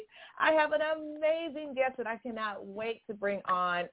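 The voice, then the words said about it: Smiling, excited voice. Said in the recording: “can hear the smile in my voice.”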